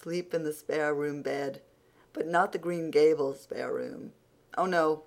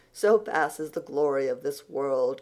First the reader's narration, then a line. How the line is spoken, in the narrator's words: concluded Anne, with a laugh in which there was a little note of regret